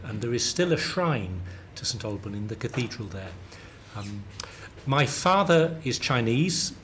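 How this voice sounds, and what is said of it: Southern London British accent. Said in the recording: “I'm British, you, you know that, you can tell from my accent. I have a very London southern accent apparently.”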